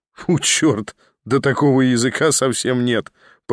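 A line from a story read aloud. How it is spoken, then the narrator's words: Laughing. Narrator (Russian): продолжал смеяться Николя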